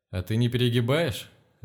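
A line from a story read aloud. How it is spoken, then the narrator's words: Laughing question. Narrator (Russian): рассмеявшись, поинтересовался Левченко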